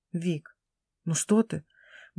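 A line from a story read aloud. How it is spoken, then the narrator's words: Mumbling. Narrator (Russian): бормочет Руслан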